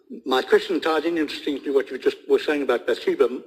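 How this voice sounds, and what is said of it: South African accent. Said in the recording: “obviously from the accent you can get, I was originally from South Africa.”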